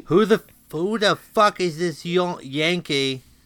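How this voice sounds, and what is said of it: Bad put-on British accent. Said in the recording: “The worst British accent. ... That was bad.”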